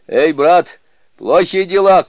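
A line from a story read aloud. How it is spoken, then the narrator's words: Shout. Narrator (Russian): крикнул Джубадзе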